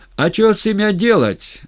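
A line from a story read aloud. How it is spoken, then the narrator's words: Crowd yelling. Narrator (Russian): орали пришлые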